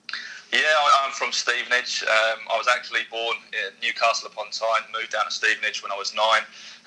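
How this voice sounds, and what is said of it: British English accent. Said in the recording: “I recognise that accent. It's not Australian... you're from the UK, or should I say Stevenage?”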